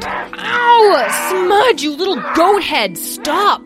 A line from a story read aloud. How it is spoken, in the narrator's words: Petra yelled over the sounds of Smudge's grunting and growling